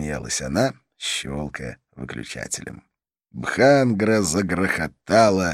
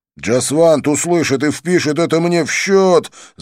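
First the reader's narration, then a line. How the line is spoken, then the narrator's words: Yelling over loud music. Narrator (Russian): заорал я, стараясь перекричать музыку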